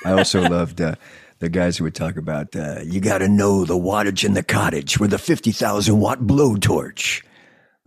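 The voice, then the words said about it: Radio DJ announcer voice. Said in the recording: “Dude, you have such a great radio voice.”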